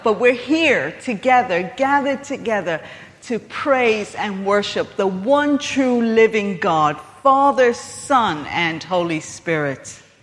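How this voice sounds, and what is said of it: American accent. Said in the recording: “I have an accent. I'm American. ... But I still have that accent.”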